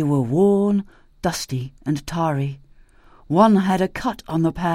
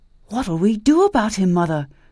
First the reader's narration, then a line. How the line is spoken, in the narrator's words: said Sandy anxiously